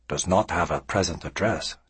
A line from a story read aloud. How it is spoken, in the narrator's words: Tsukuru murmured